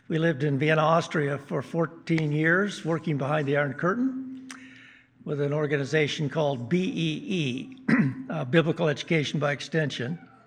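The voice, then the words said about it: Minnesota-type American accent. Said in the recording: “Minnesota type of accents here, although I realize that I have the accent”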